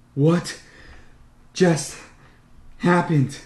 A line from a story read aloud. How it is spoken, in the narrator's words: I ask in between gasps